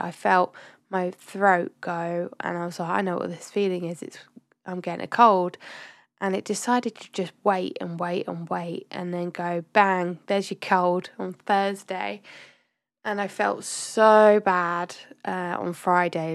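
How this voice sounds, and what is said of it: Congested, sniffly voice from a cold. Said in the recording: “I'm really sorry if you can still hear it in my voice. I'm still a bit sniffly”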